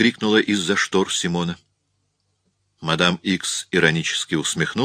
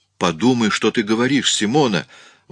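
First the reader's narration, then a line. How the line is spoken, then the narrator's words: Exclamation. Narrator (Russian): воскликнул Рауль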